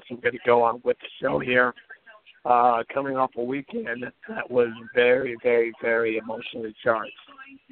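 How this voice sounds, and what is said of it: Slightly hoarse voice. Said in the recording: “my voice is a little bit hoarse, although I swear to you, about 90 minutes ago, I couldn't speak this well.”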